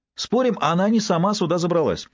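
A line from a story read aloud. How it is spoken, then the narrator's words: Cheerful announcement. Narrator (Russian): радостно сообщил его приятель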